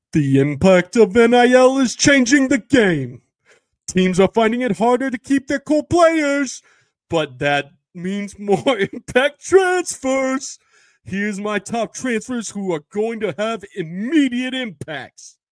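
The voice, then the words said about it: Imitates another person's voice. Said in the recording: “I have to do the Dickie V impression if you're reading Dickie V lists ... Here's Dickie's description in my Dickie impersonation.”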